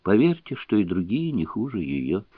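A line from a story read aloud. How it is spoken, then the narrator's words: Quiet reply. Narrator (Russian): Гоголь тихо ответил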